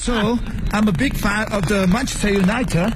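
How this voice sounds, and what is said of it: Imitated British English accent. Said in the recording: “your English is this accent, the British English ... Try and copy it ... should you speak like that for the rest of the time?”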